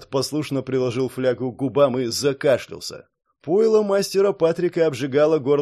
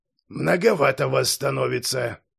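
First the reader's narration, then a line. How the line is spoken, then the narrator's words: Displeased mutter. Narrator (Russian): Недовольно пробормотал лекарь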